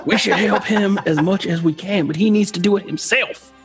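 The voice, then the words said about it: Southern gentleman accent. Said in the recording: “I lost my accent... Now I'm a Southern gentleman.”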